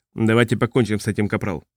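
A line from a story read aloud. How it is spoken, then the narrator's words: Curt clipped order. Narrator (Russian): отрывисто распорядился Зэй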